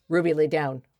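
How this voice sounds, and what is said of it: Firm commanding voice. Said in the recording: “You have to use your big girl voice”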